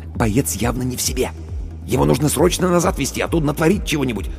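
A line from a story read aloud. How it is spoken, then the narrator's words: Whispered. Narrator (Russian): Командир медотделения шепнул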